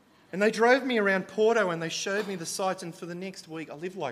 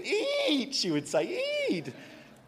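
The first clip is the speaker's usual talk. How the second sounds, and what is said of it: Put-on Italian accent. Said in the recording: “best Italian accent”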